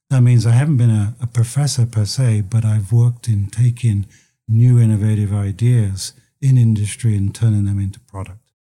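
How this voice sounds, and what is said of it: London English accent. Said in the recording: “as you can probably tell from my accent, I came from London”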